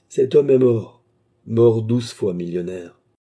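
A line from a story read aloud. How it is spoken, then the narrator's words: Cold, final. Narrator (French): acheva froidement Williams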